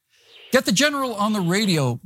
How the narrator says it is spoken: Rutan replied

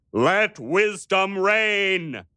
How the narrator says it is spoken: he thundered at them

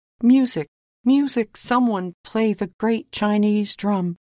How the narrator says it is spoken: cried

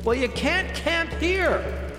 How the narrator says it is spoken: Jenny shouted back

